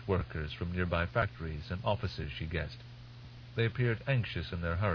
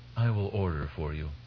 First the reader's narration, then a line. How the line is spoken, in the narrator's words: he said